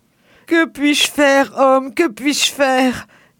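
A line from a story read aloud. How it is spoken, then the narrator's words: Woman moaning. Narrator (French): gémit la femme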